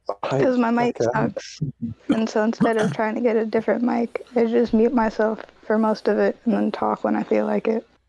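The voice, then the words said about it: Hoarse, fading voice. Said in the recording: “I'm also losing my voice”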